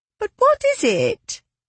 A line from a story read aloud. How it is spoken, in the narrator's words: asked Henrietta, the eldest of the Holmes girls, her voice high-pitched and whiny